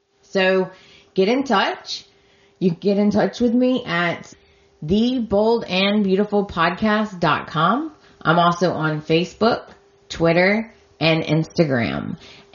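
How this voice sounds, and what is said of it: Voice fading, losing voice. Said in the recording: “I'm losing my voice.”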